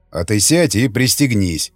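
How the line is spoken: Grumbling. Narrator (Russian): проворчал варяг

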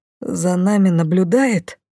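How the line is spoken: Trembling voice. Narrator (Russian): дрогнувшим голосом предположил Лей

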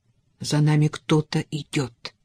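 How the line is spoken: Whisper. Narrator (Russian): прошептал он

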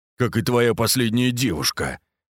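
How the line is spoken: Deep bass interjection. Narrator (Russian): вставил Костолом басом

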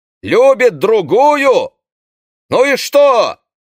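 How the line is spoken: Shouted. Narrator (Russian): крикнул Одет

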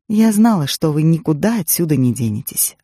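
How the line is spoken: Plain. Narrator (Russian): ответила Пайн

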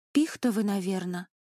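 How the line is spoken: Timid. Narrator (Russian): робко сказала Шура

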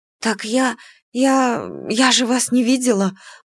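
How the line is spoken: Embarrassed timid babble. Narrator (Russian): пролепетала я, жалея о том, что не могу просочиться сквозь пол

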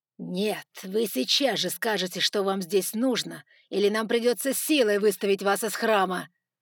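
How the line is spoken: Rude bark. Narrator (Russian): рявкнул Джефферсон, уже не пытаясь играть вежливость

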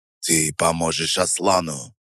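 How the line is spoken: Icy interruption. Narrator (Russian): Ледяным тоном перебил его Алиев

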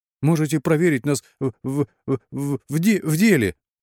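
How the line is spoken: Feigned frightened stutter. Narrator (Russian): Старательно имитируя заикание от испуга, предложил Ружон

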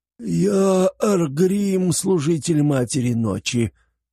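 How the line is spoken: Wheezing prisoner. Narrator (Russian): просипел пленник

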